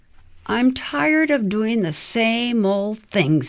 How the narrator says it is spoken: grumbled

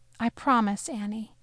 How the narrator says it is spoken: Leia said in a quiet voice

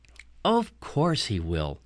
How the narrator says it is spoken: Mom said evenly

